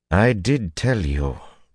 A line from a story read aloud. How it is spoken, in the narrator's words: Teslin said bitterly